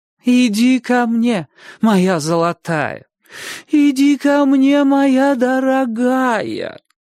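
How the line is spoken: Singsong coaxing. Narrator (Russian): Нараспев повторяла тетушка

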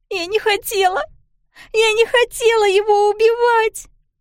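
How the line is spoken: Sobbing. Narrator (Russian): Продолжала рыдать Пиппа

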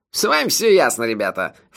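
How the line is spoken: Dismissive snort. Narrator (Russian): фыркнул Маба

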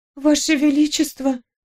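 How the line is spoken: Trembling voice. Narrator (Russian): сказала я дрожащим голосом

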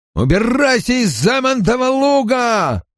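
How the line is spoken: Sullen farmer shouting. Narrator (Russian): кричал женщине угрюмолицый фермер

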